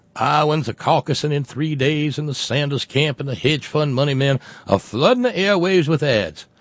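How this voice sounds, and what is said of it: Usual voice. Nothing is said of it.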